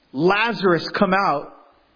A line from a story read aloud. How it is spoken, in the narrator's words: he shouted out very loudly